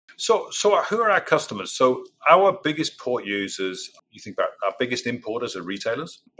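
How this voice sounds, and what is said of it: British accent. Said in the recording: “you can tell I got a British right, accent”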